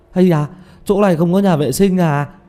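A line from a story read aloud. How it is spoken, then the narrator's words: Sudden cry. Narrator (Vietnamese): Tiểu Mã chợt kêu lên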